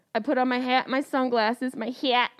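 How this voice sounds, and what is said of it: Syracuse accent on one word. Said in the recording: “my Syracuse accent came out”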